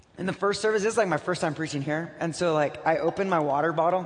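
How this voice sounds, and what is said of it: Slightly hoarse, worn-out voice. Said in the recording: “My voice is a little shot from this morning”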